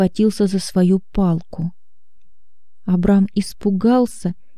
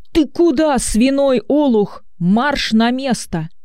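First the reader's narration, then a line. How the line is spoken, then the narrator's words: Shouting. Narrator (Russian): Учитель закричал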